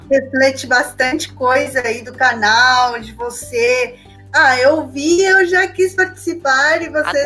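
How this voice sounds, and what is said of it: Peruvian accent in Portuguese. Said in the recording (Portuguese): “Vocês vão ouvir esse sotaque aqui peruano.”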